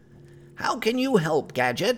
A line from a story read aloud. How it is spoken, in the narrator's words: shouted back